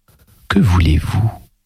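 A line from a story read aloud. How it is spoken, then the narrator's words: Small boy's sigh. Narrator (French): soupirait le petit Blanche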